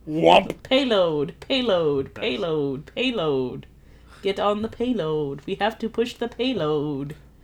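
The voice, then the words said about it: Bad impression of game character. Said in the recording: “my best Zenyatta impression. It's really bad.”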